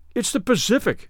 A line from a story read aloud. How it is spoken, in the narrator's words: they cried at last